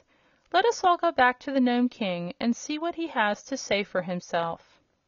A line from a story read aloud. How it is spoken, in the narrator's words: said Billina in her brisk little voice